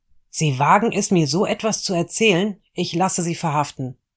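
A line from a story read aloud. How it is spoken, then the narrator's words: Called out. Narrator (German): rief er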